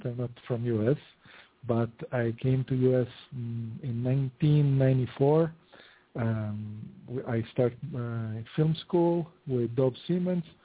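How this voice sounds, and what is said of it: Italian accent. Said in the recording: “I am Italian, as you can see from the accent.”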